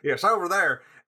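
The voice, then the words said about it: Attempted Southern American accent. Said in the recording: “I think he was Southern ... I can't do a Southern accent.”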